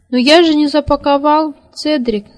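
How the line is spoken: Shout. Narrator (Russian): закричал Сниф

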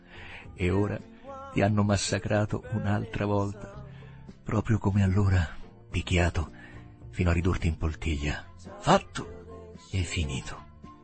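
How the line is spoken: Murmuring. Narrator (Italian): mormorò

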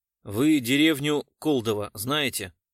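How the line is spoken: Plain question. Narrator (Russian): спросил Гуров

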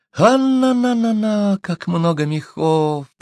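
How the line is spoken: High squeaky voice. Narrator (Russian): пропищал Уленда

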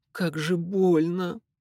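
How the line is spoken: Moan of pain. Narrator (Russian): простонала она

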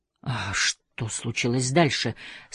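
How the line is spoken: Through gritted teeth, embarrassed. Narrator (Russian): спросил я сквозь зубы, чувствуя себя ужасно глупо

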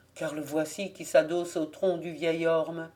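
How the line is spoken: Murmured to himself. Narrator (French): murmura Jean-René à part soi

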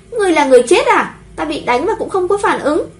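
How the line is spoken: Angry shout. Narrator (Vietnamese): Trầm Vân Tinh bị ăn một cái tát trời giáng, tức giận hét lên

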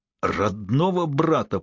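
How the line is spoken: Through gritted teeth. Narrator (Russian): процедил Шай

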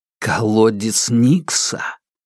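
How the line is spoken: Whispered curse. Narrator (Russian): Она шепотом выругалась

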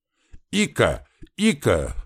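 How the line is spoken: Shouted. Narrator (Russian): закричал мужик

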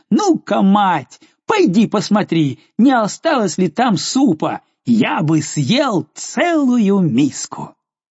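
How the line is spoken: Laughing, very loud shout. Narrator (Russian): все еще смеясь, он крикнул ей, словно она была глухая

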